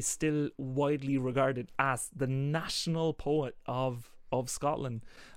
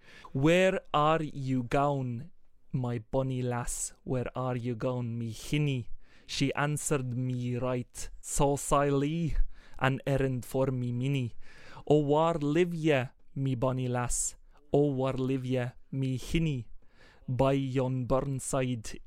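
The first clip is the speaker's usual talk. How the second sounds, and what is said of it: Put-on Scottish accent. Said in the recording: “I can't recite this without trying to do a little bit of a Scots thing”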